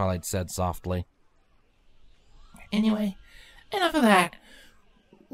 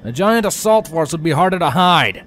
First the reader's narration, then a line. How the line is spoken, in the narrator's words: the pilot shouted back over the noise of the blades and the magical inner workings of the rotor